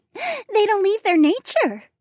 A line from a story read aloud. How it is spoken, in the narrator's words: Trina giggled